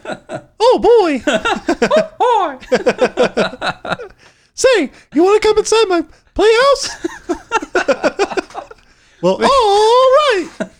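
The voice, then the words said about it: Cartoon mouse character voice. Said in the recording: “That's pretty good, man. ... in a Mickey Mouse voice”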